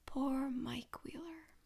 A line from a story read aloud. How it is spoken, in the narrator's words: Vecna whispers, though it's Will's voice that comes out